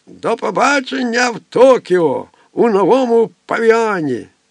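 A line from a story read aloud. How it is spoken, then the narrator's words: Loud beaming shout. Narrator (Ukrainian): Широко всміхаючись, що духу вигукнув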